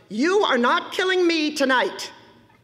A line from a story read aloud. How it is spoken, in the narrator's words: Marnie shouted